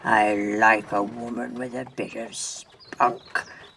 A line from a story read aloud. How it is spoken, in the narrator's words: laughed her attacker